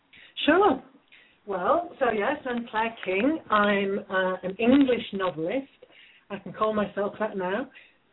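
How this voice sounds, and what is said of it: British accent. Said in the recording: “I love your accent, by the way. I love British accents.”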